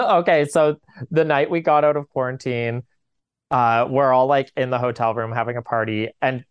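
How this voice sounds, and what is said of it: Usual voice. Nothing is said of it.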